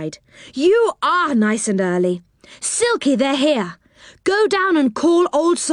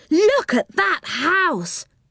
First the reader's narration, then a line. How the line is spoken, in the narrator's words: cried Joe